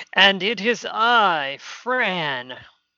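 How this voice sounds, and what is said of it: Theatrical Count Chocula character voice. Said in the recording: “That was just me being a little ridiculous. ... did a lovely Count Chocula impression”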